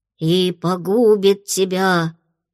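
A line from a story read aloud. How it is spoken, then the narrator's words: Sepulchral voice. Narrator (Russian): выдала за могильным голосом Фло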